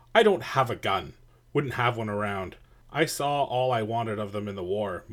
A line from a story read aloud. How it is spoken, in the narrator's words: Moore snapped